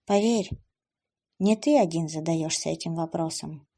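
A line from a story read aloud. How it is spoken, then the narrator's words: Heavy sigh. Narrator (Russian): тяжело вздохнула Эбби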